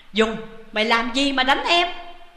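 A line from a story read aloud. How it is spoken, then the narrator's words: Hasty angry shout. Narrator (Vietnamese): vội quát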